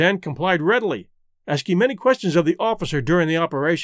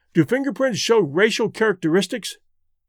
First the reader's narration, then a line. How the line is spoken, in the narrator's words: he asked